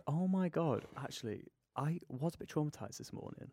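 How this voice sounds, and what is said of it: Whispering. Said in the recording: “Why are we whispering? ... I just do this whenever I'm shocked.”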